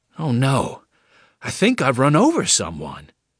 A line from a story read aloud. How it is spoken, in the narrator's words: Tom exclaimed